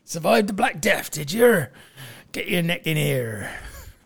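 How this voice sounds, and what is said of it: Put-on pirate accent. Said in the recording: “Not a bad Portsmouth accent. ... I was going for pirate.”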